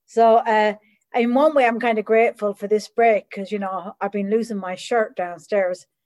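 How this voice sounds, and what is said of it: Irish accent. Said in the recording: “the accent is Irish... I was actually born in Ireland”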